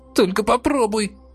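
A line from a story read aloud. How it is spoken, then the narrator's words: Witch's wheeze. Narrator (Russian): Захрипела ведьма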